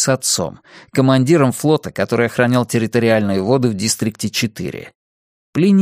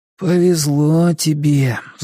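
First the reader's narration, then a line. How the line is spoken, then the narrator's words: Sighing. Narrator (Russian): вздохнул Плиний Харрингтон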